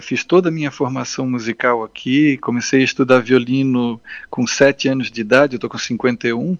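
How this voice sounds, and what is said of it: Florianópolis Brazilian Portuguese accent. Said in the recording (Portuguese): “pelo sotaque, o pessoal já deve ter percebido, né? Eu sou manezinho da ilha de Florianópolis”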